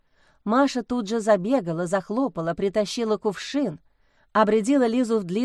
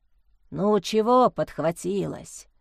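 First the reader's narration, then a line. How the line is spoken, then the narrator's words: Grumbling house spirit. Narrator (Russian): заворчал невидимый домовой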